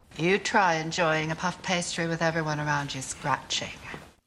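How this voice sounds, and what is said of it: Moira's distinctive put-on accent. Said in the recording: “her delivering those lines in that accent ... did her accent as Moira”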